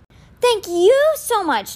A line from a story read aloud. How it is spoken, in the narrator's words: Ty squealed